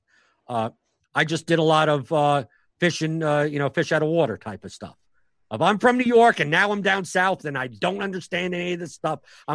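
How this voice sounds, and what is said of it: Northeastern US New York accent. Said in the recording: “Jewish New York kid... That talked fast with an accent, you know, the Northeastern accent.”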